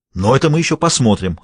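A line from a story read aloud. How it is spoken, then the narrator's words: Barking. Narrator (Russian): рявкнул он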